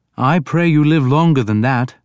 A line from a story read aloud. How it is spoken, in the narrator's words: Beocke said